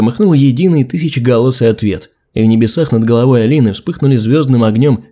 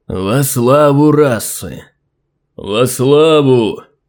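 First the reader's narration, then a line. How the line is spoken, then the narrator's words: Strong loud proclamation. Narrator (Russian): сильным голосом произнес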